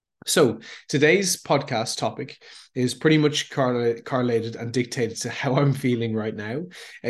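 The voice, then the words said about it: Sick-sounding voice. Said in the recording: “I've become sick this week ... if you can hear it in my voice a little bit ... why I sound maybe a little bit different”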